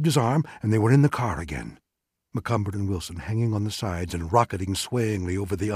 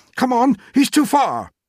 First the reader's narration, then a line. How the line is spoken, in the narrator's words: Wilson shouted